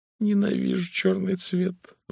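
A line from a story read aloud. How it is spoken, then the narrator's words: Sighing. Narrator (Russian): вздохнула она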